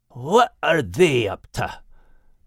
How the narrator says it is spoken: growled Max to himself

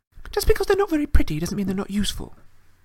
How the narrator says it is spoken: Hermione snapped

